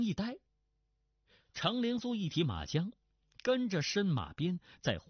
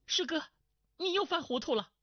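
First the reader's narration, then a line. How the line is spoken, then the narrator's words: Urgent shout. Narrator (Chinese): 马春花急叫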